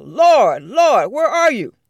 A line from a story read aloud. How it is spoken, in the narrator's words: hollered out